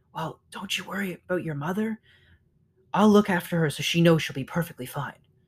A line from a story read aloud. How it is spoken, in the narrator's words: The squirrel whispered